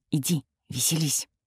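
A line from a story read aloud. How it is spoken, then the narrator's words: Silent mouthed whisper. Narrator (Russian): Одними губами прошептала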